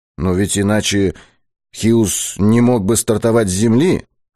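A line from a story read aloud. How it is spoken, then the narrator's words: Timid interjection. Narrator (Russian): вставил Быков робко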